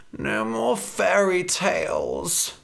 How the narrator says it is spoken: Red groaned

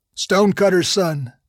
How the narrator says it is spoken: I said, speaking too loudly

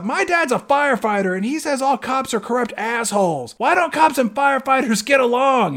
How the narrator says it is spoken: And then one little girl yells out

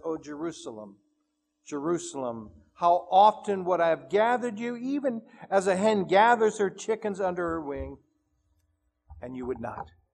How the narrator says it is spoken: the Master all but sobbing when He says

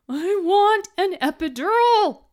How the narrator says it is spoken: I shout

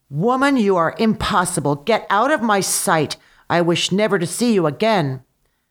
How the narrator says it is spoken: In his anger, the Tsar shouted

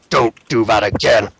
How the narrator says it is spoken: Muata kind of opens an eye and growls at him

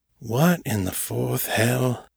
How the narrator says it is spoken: Silas muttered

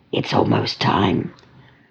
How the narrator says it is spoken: said in a whisper

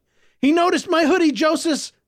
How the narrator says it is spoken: Clovis shouted

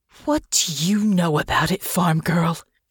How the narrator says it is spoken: hissed

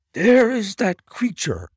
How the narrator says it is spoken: cried Grant Monroe

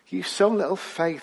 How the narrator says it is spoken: Jesus said

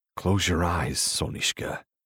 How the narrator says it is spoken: he murmurs

